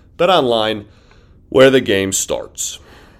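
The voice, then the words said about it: Unusually low, deep voice. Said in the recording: “I got really low in that last ad read on my voice at the very end there ... I got a really deep voice there”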